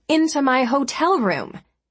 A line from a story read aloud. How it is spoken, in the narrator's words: she snapped, cutting him off